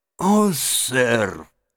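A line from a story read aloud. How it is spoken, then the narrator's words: Tearful, strained. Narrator (Russian): выдавил мистер Джаб, заливая слезами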